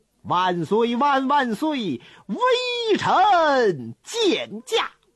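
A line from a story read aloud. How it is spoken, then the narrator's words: Loud, joyful voice. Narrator (Chinese): 有人回答，声音非常洪亮，听得出来这回话的人呢心中喜悦，那嗓门就大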